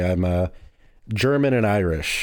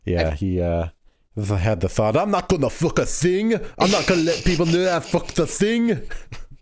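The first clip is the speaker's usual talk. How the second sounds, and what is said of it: Attempted Scottish accent, sounds French. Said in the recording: “That sounded more French, honestly... you were doing a Scottish accent there?... I was trying to.”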